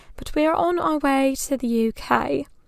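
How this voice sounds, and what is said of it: Terrible put-on British accent. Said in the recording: “my terrible British accent”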